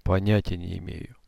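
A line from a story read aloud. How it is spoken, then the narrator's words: Quiet answer. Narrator (Russian): тихо ответил он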